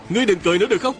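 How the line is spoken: Young man's pitying shout. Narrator (Vietnamese): Một đạo nhân còn trẻ bỗng động lòng, bèn hét lên

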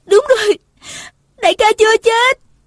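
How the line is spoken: Cried out. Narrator (Vietnamese): nàng la lên

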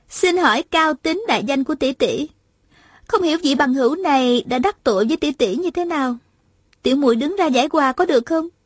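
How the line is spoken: Smiling question. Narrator (Vietnamese): Hà Thiết Thủ mỉm cười hỏi lại

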